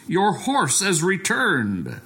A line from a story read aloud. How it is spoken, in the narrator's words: And the neighbor shouted